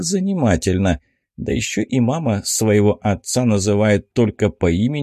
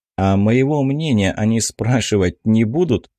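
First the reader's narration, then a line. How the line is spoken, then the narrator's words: Displeased snort. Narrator (Russian): хмыкнул я, не слишком довольный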